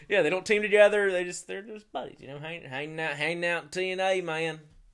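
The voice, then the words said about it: Shannon Moore impression, North Carolina drawl. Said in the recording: “That was my Shannon Moore impression. It's the same as Jeff. ... everybody from, like, Cameron, North Carolina sounds the same”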